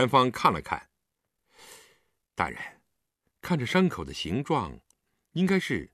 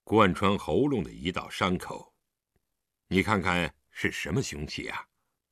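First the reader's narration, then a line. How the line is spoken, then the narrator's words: Low voice. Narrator (Chinese): 狄仁杰对李元芳低声道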